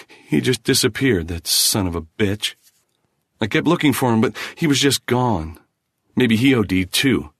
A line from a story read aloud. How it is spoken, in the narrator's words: added bitterly